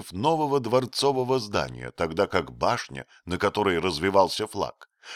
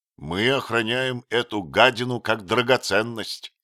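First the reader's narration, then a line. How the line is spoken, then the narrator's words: Spiteful remark. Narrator (Russian): злобно заметил Отто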